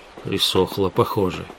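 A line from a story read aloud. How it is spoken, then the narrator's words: Mumbled. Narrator (Russian): Пробормотал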